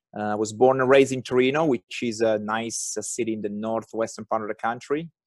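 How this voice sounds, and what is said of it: Thick Italian accent. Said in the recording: “I am Italian, as you might have guessed by my thick accent.”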